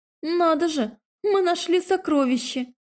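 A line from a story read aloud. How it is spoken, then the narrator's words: Joyful exclamation. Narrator (Russian): радостно воскликнула я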